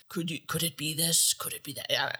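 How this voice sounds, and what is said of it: Imitates a TV narrator's voice. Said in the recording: “leading narrator for Curse of Oak Island ... I can't do it very good ... that was the best impersonation ... It's so haunting”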